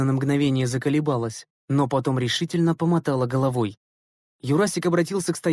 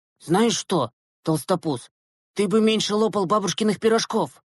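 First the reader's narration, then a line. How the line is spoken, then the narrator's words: Angry reply. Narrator (Russian): Зло ответил Глеб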